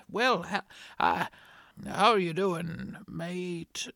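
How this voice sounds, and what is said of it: Put-on Scottish accent. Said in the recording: “Can still speak Scottish, you know, just like my grandmother”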